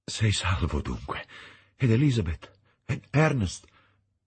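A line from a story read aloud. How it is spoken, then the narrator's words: Exclaimed. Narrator (Italian): esclamai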